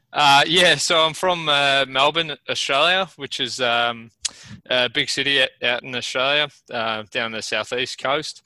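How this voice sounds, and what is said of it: Australian accent. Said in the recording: “you have a little bit of an accent”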